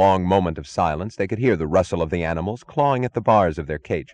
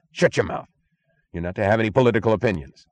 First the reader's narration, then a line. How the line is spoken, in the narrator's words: snapped the chief